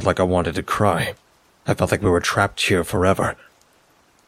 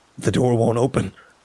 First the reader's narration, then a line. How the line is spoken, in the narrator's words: choked